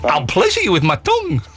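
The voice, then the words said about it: Put-on Scottish accent. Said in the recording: “I can say it in a Scottish accent ... You can't do a Scots accent, I'm afraid.”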